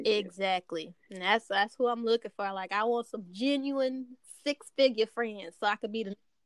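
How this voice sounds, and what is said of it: Texas twang accent. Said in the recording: “I love your accent. Yes. I love your accent. I love the Texas twang.”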